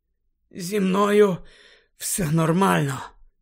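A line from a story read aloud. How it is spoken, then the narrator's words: Hoarse rasp. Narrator (Ukrainian): прохрипів він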